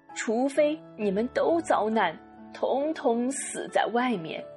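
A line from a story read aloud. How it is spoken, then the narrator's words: Choked sobbing voice. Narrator (Chinese): 他哽咽着说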